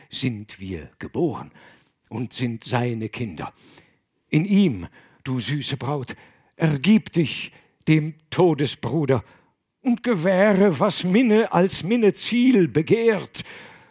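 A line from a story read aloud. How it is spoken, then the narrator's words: Stammering. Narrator (German): stammelte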